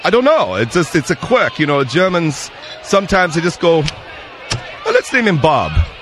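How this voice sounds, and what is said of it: Funny put-on accent. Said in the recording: “you have a funny accent. What is that accent?”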